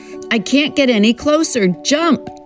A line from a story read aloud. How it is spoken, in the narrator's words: he shouts as the boat gurgles and sinks now in the trough